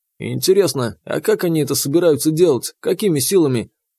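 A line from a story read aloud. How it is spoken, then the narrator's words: Coarse laugh. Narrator (Russian): Другой грубо хохотнул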